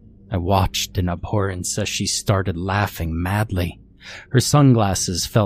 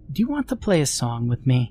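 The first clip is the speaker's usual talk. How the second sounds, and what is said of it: Little sweet girlish voice. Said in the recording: “in her little sweet voice”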